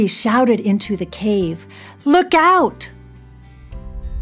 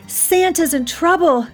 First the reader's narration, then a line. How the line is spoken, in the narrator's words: she cried